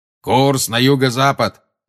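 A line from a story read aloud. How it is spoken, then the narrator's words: Booming shout. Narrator (Russian): прогремел Грюм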